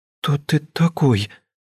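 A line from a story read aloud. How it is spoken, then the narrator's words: Trembling voice, young woman. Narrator (Russian): дрожащим голосом спросила девушка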